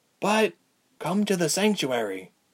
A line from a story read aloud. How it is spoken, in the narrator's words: Berg whispered